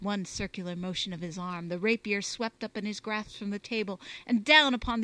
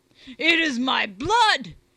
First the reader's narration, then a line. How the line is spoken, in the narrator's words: he roared